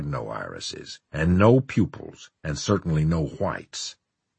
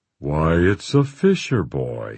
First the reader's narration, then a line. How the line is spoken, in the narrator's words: he cried in a mellow, pleasing voice